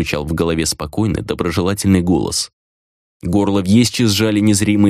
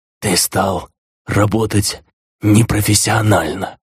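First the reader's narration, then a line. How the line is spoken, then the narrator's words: Choked rasp. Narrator (Russian): прохрипел Вьесчи, пытаясь сорвать с себя магическую удавку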